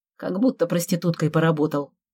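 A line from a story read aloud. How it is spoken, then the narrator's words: Grumbled. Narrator (Russian): буркнул я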